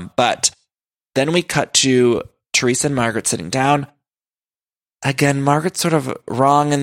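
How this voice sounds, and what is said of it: Usual voice. Nothing is said of it.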